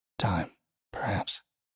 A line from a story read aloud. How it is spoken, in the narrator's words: he muttered